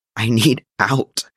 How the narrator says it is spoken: he choked against Clint's chest, tears leaking

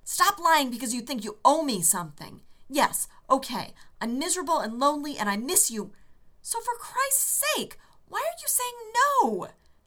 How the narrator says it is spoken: John yelled

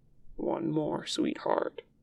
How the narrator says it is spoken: Lan Zhan says, softly

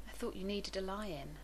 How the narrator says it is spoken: he murmured

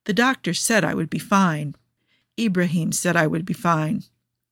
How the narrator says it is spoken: Joe says as gently as he can

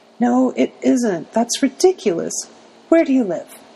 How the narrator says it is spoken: still sobbing

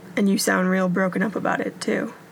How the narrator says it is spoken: Derek said dryly

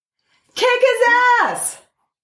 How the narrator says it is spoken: Flash shouted

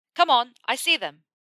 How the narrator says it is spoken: Ron shouted in his ear

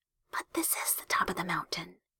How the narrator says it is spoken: Hiromi whispered

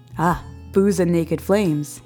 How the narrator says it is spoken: sighs

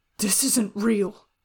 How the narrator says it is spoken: he said thickly, voice echoing strangely through the almost silent room and his numb and empty chest

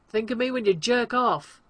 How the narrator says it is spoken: John shouts after him

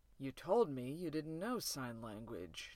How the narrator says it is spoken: General O'Neill mutters into the silence

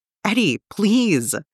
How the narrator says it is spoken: she cries out, eyes going milky white

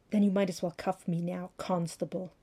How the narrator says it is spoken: hissed

